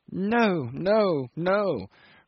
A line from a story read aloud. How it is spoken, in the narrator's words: croaked the old man, and the senile tremble of his head became almost fierce with determination